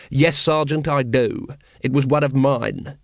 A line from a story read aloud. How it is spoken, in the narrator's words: he said coldly